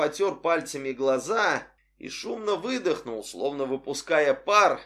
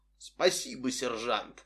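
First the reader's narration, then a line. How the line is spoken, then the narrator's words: Muffled. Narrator (Russian): глухо произнес он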